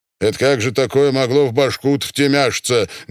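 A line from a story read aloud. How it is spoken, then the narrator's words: Menacing question. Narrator (Russian): грозно спросил второй генерал, лысый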